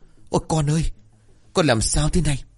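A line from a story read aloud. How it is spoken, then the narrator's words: Frightened screaming. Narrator (Vietnamese): Bà sợ hãi rồi la toáng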